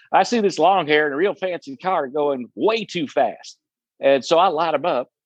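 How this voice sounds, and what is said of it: Put-on Southern accent. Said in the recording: “he's got a little bit of a Southern accent”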